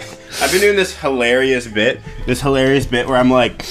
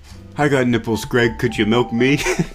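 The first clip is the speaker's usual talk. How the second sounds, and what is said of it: Imitates another person's voice. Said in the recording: “my Robert De Niro impression”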